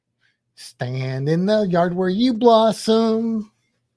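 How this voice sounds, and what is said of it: Sung imitation of a rock singer. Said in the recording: “that's my impression of an REM song. I apologize to Michael Stipe.”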